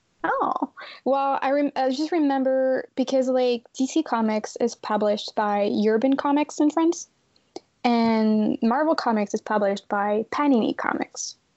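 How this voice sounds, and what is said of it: Slight French accent. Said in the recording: “That explains the accent a little bit.”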